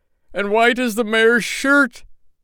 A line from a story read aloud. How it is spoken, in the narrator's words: cried the tailor